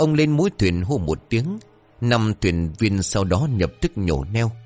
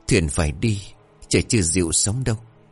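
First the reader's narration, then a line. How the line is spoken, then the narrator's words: Fearless, steady. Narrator (Vietnamese): ông Chánh dường như không hề sợ hãi, ông nói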